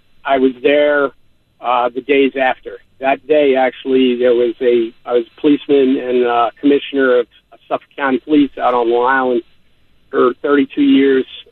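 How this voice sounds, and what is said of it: New York accent. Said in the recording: “if you can't tell by my accent, I'm a transplant from New York”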